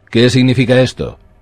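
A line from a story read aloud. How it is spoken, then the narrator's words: Snapping at crowd. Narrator (Spanish): espetó Cersei a la multitud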